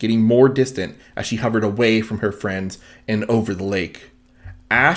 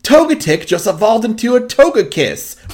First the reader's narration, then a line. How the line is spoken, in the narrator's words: Brock shouted from a distance